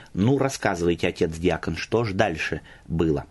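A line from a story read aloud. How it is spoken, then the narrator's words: After laughing, priest speaking. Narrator (Russian): Насмеявшись в волю, батюшка сказал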